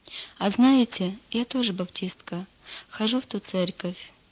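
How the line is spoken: Calm. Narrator (Russian): спокойно произнесла Лида

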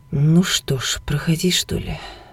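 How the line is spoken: Glum, dejected. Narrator (Russian): уныло сказала я

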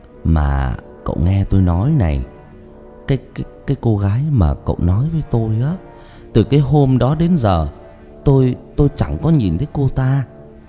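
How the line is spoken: Trembling voice. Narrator (Vietnamese): Ông Năm cất giọng run run

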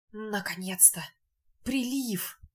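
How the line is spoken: Muttered. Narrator (Russian): один из них пробормотал

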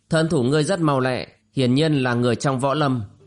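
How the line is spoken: Cold reply. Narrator (Vietnamese): Ngọc Lan lạnh lùng đáp

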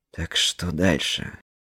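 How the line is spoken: Low-voiced question. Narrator (Russian): вполголоса спросил он

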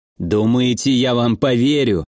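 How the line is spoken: Scoffing grunt. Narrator (Russian): Адам хмыкнул

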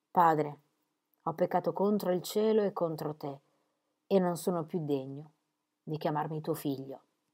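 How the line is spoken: Old man murmuring. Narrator (Italian): Il vecchio mormorò

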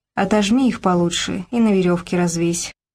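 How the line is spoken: Tired, smiling. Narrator (Russian): устало улыбнулась Тоня

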